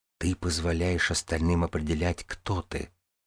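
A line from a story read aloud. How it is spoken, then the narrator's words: Whisper. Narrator (Russian): прошептала она мне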